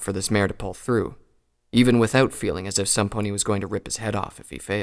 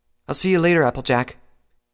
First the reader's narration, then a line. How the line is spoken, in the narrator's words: an Earth Pony stallion called out